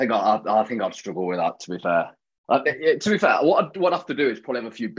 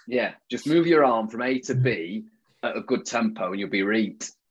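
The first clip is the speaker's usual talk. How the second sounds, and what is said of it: Put-on Yorkshire accent. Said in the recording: “I'm just chucking more Yorkshire in now. A bit of reet in there will be reet.”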